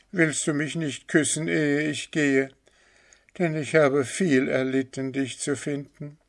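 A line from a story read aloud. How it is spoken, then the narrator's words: Calling out. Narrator (German): rief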